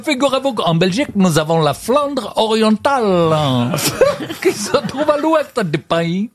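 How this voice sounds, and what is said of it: Put-on Belgian accent, Chinese-tinged. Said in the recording (French): “C'est un chinois qui a l'accent belge.”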